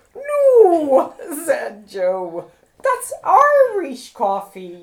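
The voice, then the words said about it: Bad put-on Irish accent. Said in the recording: “It's a really bad Irish accent.”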